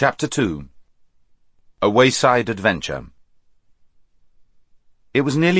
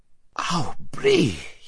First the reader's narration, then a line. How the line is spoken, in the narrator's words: he gasped